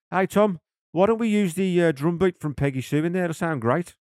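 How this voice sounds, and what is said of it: Poor put-on Birmingham accent. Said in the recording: “that is a terrible Birmingham accent. It's an even worse Jeff Lynne accent”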